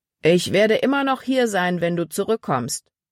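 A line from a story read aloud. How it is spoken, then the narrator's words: Calling after someone. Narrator (German): rief Paul ihr nach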